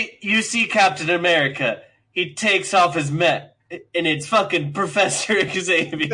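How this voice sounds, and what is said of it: Usual voice. Nothing is said of it.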